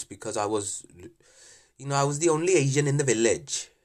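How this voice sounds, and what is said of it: Put-on Welsh accent. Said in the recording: “So that's a Welsh accent you're doing there.”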